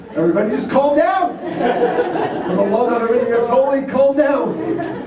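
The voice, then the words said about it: Yelling. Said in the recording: “yelled at your kids in order to get them to stop yelling”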